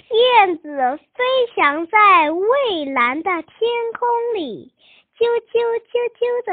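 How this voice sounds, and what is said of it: Usual voice. Nothing is said of it.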